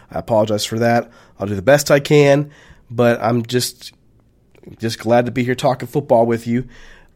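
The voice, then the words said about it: Slightly hoarse voice. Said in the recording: “I'm a little under the weather, my voice is a little hoarse”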